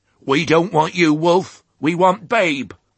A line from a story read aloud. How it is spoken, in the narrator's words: one hoarse voice, which the pig recognised, called loudly